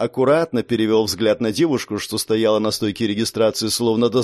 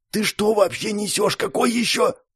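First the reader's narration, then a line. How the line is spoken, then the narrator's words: Whispered. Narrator (Russian): прошептал я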